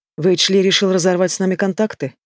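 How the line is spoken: Hoarse drawl. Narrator (Russian): сипло тяну

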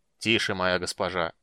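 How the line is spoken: Solemn. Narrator (Russian): торжественно сказал драконит

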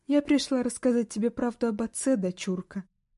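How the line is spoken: Sad, smiling. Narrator (Russian): грустно улыбнувшись, сказала Ури

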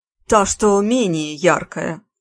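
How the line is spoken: Laughing. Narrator (Russian): Горшенин рассмеялся

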